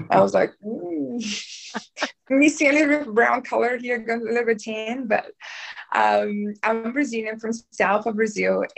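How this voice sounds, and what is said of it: Brazilian accent. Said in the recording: “I'm from Brazil. And when I open my mouth, obviously I can't hide this accent.”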